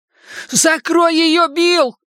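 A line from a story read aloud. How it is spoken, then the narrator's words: Shouting. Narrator (Russian): прокричал Ричи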